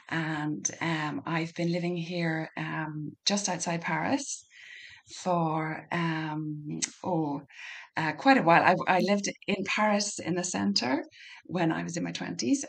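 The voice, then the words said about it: Irish Donegal accent. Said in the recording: “as you can hear from the accent, you might need to put subtitles on this one. I'm from Donegal in the northwest of Ireland.”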